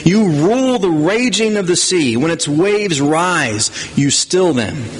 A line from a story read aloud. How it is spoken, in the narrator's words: exclaiming God's power, the psalmist says